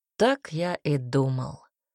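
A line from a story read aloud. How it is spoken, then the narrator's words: Calm. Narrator (Russian): произнес он спокойно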